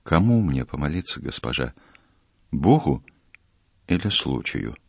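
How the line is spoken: Quiet question. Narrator (Russian): Матрос тихо ее спросил

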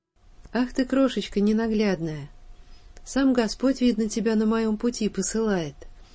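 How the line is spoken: Old man speaking. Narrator (Russian): произнес старик

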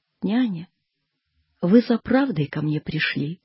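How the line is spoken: Sighing. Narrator (Russian): вздохнула

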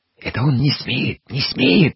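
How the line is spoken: Whispering. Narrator (Russian): зашептала Федосия

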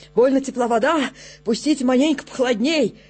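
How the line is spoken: Hoarse wheezing. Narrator (Russian): солдат хрипит

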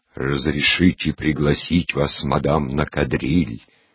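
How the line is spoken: Deep bass impersonated voice. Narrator (Russian): произносила басом от имени неизвестного кавалера, который лица ее не видит, а говорит в затылок

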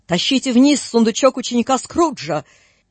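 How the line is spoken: Menacing booming shout. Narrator (Russian): чей-то грозный голос закричал гулко на всю прихожую

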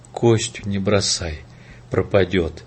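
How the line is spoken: Whisper. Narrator (Russian): Прошептала

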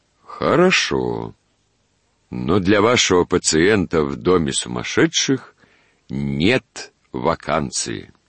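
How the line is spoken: Head doctor, calm. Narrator (Russian): Главный доктор отвечал спокойно

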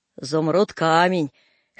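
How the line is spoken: Hoarse soldier. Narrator (Russian): хрипит солдат

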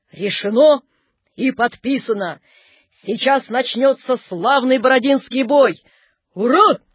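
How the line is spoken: Loud barking shout. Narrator (Russian): гаркнули маршалы

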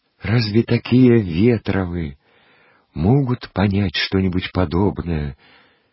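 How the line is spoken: Timid passing interjection. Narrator (Russian): Робко вставил он мимоходом

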